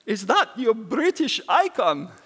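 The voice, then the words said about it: Put-on Russian accent. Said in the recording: “That is actually a genuine Russian accent... It's a terrible accent.”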